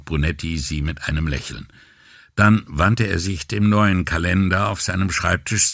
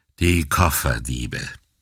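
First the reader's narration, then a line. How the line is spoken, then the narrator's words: Weary sighing question. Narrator (German): fragte Brunetti mit einem müden Seufzer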